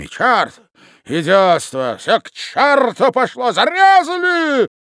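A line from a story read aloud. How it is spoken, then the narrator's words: Frenzied yelling. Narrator (Russian): Вопил он неистовым голосом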